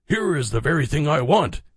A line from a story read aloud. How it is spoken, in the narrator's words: he exclaimed